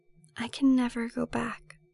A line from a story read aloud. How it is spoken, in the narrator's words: she whispers